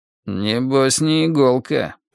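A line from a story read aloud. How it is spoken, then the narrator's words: Muttered. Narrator (Russian): пробурчал Фриски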